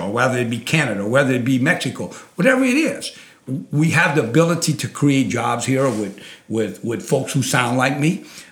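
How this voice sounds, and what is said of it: Thick Cajun accent. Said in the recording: “it's a pretty thick Cajun accent”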